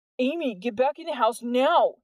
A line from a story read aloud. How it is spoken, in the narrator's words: Jordan yelled